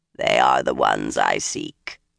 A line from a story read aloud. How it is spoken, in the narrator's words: another of them rasped